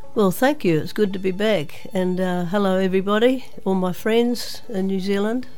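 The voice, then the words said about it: Hoarse, nasal voice. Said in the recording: “I've been suffering from what everyone else has had, the flu, and lost my voice, so I'm speaking through my nose today.”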